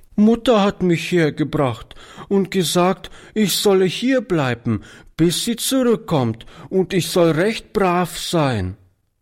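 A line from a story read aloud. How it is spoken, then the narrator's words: Little girl sobbing. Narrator (German): erklärte die Kleine schluchzend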